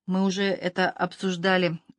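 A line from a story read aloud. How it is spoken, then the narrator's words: Muttering. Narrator (Russian): пробормотал Бьюкенен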